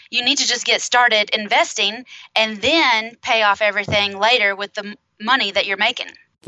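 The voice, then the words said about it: Regional American accent. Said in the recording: “I also like the sound of your accent”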